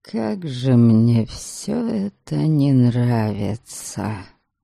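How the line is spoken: Miserable groan. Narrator (Russian): тоскливо простонал Дориан

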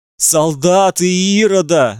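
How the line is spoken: Shout. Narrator (Russian): закричал один из членов секты

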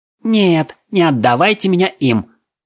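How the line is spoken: Frightened shriek. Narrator (Russian): взвизгнул маг, наконец заметив вампиров

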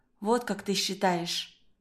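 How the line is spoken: Quiet. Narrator (Russian): тихо говорит Катрин

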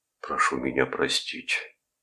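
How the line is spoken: Barely audible whisper. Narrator (Russian): прошептал чуть слышно Николс

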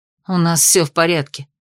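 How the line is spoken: Displeased grumble. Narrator (Russian): недовольно пробурчала Ада

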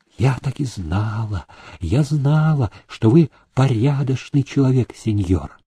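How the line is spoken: Tearful old woman whispering. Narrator (Russian): Старуха, утирая обильные слезы, она шептала

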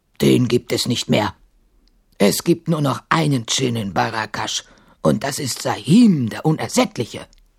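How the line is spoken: Guard grunting. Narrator (German): grunzte der Wächter

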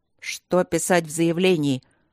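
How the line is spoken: Irritated question. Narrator (Russian): раздраженно спросил папа

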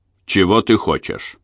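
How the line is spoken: Gruff, masking doubt. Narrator (Russian): грубо спросил он, изо всех сил стараясь скрыть свои сомнения

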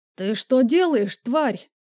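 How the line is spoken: Roaring. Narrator (Russian): взревел

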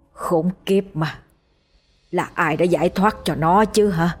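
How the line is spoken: Angry whisper through teeth. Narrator (Vietnamese): ánh mắt của người đó hằn lên vẻ tức giận, nghiến răng thì thầm trong cổ họng

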